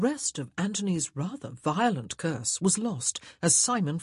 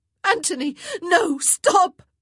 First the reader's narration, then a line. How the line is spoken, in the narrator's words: Daphne cried